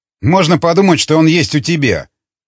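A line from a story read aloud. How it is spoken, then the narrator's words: Scoffing snort. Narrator (Russian): хмыкнул Волков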